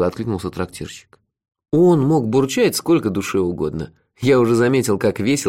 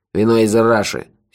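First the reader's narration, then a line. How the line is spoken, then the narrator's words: Angry. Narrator (Russian): сердито сообщил ему Мохи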